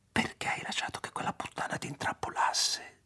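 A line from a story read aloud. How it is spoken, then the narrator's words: Whisper. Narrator (Italian): sussurrò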